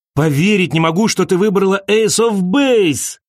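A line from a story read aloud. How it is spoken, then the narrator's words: Shout. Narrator (Russian): крикнул он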